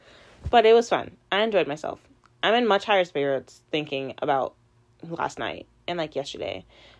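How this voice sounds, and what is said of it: Hoarse, worn-out voice. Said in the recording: “that's why my voice is gone, because I talked and laughed and smiled so much”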